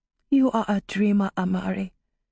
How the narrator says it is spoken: Tirsa told her quietly

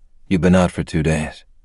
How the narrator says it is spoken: he said in a calm and level voice

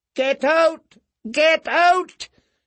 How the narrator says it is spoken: he heard her own mouth shouting

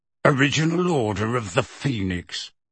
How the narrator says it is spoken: growled Moody

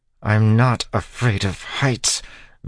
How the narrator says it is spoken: Vin said through gritted teeth

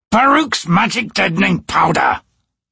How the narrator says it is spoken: the assassin snapped

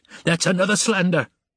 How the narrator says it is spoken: he yelled

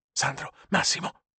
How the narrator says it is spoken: Marco whispered

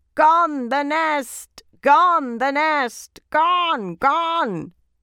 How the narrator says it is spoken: just as the birds had screeched in Borreby Forest when the trees were felled

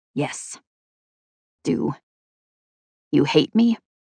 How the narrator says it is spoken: speaking softly

